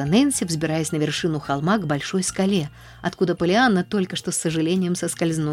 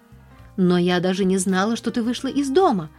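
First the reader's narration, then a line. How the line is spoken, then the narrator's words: Exclaiming. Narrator (Russian): воскликнула Нэнси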